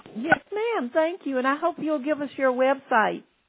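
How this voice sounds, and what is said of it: Texas country accent. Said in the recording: “You've got a cute accent... Everybody says I'm so country. I'm from Dallas, Texas.”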